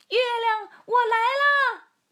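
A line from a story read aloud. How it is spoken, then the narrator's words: Joyful shout. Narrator (Chinese): 提莫龙 高兴地大叫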